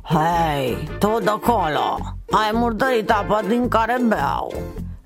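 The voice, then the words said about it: Hoarse voice of a character. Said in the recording (Romanian): “auzi un glas răgușit deasupra lui”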